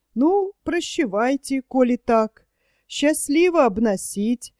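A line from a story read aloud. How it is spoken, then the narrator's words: Disappointed sigh. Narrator (Russian): сказал он, несколько разочарованно вздохнул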